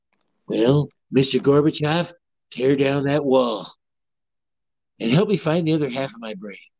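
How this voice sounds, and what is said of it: Imitates another person's voice. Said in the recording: “my Ronald Reagan impersonation.”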